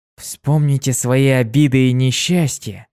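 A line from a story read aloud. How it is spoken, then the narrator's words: Soft. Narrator (Russian): тихонько проговорил он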